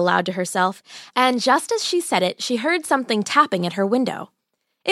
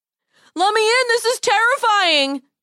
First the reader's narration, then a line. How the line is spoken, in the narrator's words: he called out